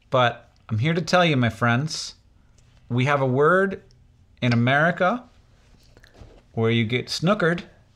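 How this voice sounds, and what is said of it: American accent. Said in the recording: “I'm just saying it with an American accent.”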